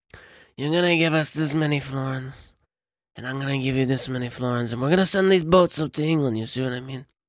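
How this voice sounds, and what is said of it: Put-on American-Italian accent, throaty. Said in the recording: “this is how I talk in, you know, 14th century Italy ... it's all in the back of the throat ... the rare Joe impression ... that type of American-Italian accent”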